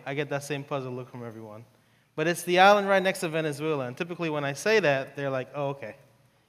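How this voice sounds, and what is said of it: New York accent. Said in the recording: “I grew up in New York, so that's why I have the accent.”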